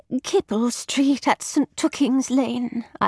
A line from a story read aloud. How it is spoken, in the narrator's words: I murmured, as if I myself were incapable of calling out our destination to the cabby